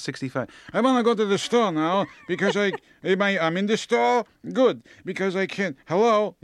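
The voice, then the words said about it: Put-on elderly Jewish accent. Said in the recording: “when they get old, no matter what religion they are, they have a Jewish accent ... they get a Jewish accent”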